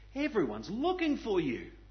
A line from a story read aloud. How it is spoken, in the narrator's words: they exclaimed